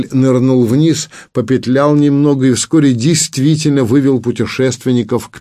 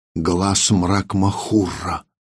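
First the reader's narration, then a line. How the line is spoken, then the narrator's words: Whisper. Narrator (Russian): прошептала Зарима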